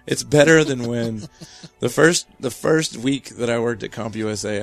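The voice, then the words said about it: Hoarse, losing voice. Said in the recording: “I'm losing my voice”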